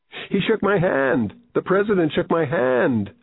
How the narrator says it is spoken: a little boy squealed

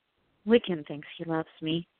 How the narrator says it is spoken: she said softly

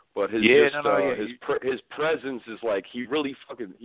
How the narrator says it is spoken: he barks

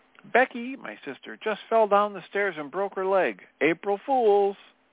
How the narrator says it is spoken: screaming

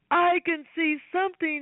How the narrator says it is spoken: shouted

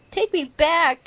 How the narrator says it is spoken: shouted

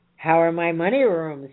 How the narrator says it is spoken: growled

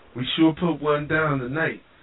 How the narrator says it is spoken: Judy exclaimed

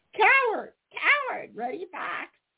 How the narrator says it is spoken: shrieked Sammy Jay

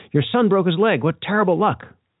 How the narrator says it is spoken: the villagers cried

